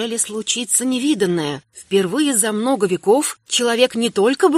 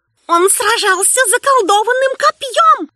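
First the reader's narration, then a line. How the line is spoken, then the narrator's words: Defeated shriek. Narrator (Russian): взвизгнет побежденный водяной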